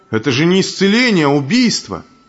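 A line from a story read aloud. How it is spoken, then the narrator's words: Horrified, angry crowd shouting. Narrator (Russian): Все присутствовавшие пришли в ужас, и с гневом закричали святому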